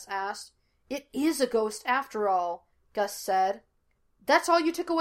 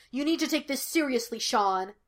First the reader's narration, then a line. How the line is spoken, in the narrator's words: Gus snapped